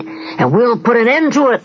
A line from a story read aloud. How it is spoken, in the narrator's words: they bellowed